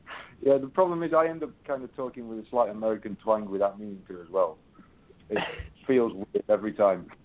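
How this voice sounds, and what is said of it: British accent. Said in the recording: “when I talk to someone with a British accent ... sound like Haydn ... a smooth-sounding, like, cool guy”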